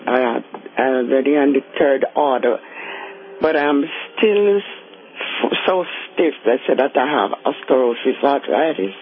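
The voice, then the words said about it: Jamaican accent. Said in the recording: “Are you from one of the islands? ... I'm from Jamaica. ... Keep your accent.”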